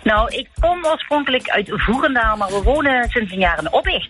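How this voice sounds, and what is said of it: Southern Dutch Limburg accent. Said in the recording (Dutch): “dat verraadt een zuidelijk accent. En we hebben weer met Limburg te maken.”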